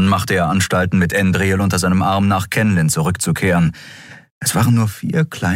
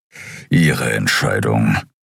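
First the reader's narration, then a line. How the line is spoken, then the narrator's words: Grumbled. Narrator (German): brummte Keru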